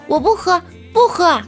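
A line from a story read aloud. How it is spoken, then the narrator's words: Loud shout. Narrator (Chinese): 我也大声的对他喊道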